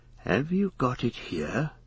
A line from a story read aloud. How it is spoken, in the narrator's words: he asked in a whisper